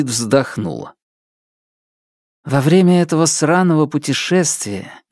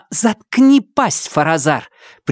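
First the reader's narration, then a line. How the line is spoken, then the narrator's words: Sharp rebuking shout. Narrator (Russian): прикрикнул на него Нелит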